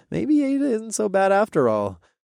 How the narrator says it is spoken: I chuckled

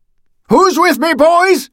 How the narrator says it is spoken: shouted

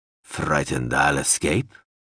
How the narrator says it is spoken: Zoxal rumbled

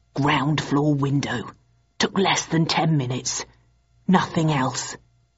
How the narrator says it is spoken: whispered in my ear

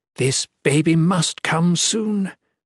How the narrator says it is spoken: she groaned

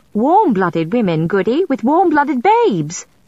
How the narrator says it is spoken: Susanna said indignantly

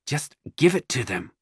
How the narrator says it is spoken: the wife hisses

